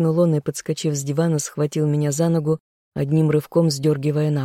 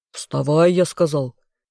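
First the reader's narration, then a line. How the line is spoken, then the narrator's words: Insistent demand. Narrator (Russian): потребовал неугомонно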